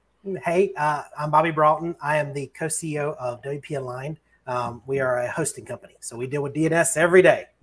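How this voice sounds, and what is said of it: Southern Texas accent. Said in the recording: “we'd have a Southern accent, but he's like Texas ... is bringing the South”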